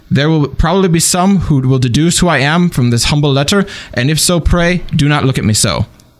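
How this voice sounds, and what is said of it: Put-on accent, slipping in places. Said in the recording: “Your accent was a little off, but... He fell out of it a few times.”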